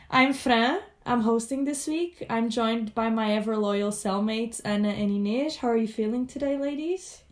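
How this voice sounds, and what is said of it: Congested voice from a cold. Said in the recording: “because I have a little cold, so I'm going to be sounding a little congested”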